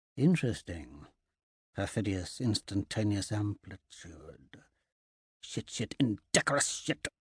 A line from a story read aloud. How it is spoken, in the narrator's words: punctuating it with murmurs of